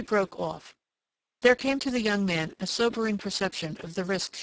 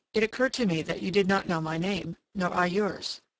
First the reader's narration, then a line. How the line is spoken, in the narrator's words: he murmured